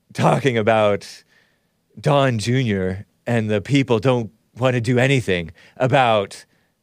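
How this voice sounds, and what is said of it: Impression of David Pakman. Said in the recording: “when I was talking like David Pakman. David Pakman... Is this a pretty good impression? I feel like it's somewhat good. It's inching towards good... I'm talking like David Pakman, and it sounds like Justin Trudeau. And it also sounds a little bit like Richard Spencer.”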